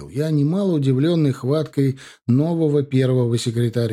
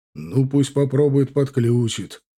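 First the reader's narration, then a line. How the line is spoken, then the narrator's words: Short laugh. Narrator (Russian): хохотнул Шанцев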